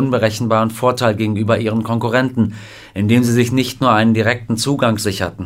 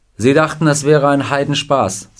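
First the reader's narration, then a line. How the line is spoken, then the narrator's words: Plain. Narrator (German): sagte Marian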